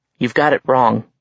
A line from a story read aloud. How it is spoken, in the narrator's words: Alex said